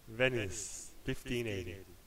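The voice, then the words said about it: Pretentious mock-Italian delivery. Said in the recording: “That is a terrible Italian accent. ... I was just speaking like a pretentious prick.”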